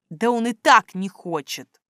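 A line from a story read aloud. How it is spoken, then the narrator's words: Gloomy sigh. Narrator (Russian): Мрачно вздохнула я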